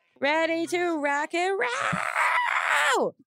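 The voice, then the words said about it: 80s hair band rock singer. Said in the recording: “That was my impression of every hair band in the 80s.”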